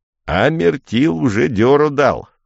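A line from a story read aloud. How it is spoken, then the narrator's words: Said with silly giggling. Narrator (Russian): сказал Демант, глупо хихикая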